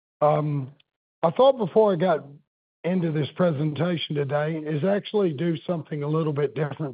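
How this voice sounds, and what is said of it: Hoarse, weak voice. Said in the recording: “I've got laryngitis ... if you can't hear me”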